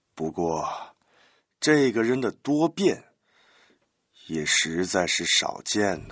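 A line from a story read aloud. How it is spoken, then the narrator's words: Sighing. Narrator (Chinese): 板垣叹了口气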